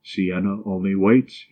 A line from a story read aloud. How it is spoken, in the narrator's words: he replied